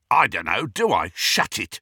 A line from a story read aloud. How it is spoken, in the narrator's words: snarled an uncouth voice that Harry knew was that of the Carrow brother, Amicus